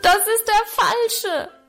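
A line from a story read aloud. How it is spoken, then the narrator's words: Desperate bellow. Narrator (German): brüllte ich verzweifelt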